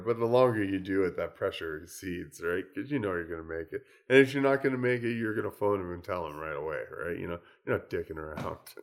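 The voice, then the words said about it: Froggy, rough voice. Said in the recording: “my voice is starting to get froggy”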